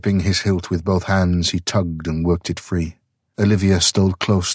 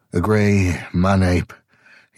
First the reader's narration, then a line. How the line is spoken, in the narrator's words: he grunted